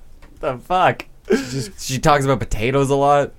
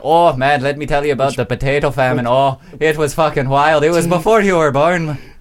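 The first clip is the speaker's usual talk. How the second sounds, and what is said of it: Put-on Irish-sounding accent. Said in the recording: “That's not even a PEI accent. That's like a Irish accent.”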